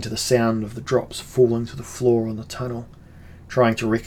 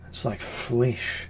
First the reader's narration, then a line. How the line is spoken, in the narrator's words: murmured the warrior priest of Foom